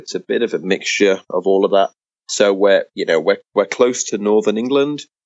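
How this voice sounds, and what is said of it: English-sounding British Isles accent. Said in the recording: “what's the accent that I'm picking up here? I mean, it's almost like an English accent, but it has a different slang to it almost ... is it like a United Kingdom type of accent? Is it Irish and Atlantic”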